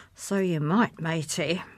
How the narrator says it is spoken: murmured

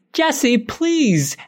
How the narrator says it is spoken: Emma screams

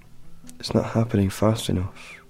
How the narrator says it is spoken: She muttered

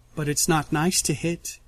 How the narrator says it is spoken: she says softly, smiling so sheepishly

